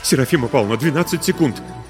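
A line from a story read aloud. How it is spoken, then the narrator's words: Trembling bleat. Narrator (Russian): дрожащим голосом проблеял Дима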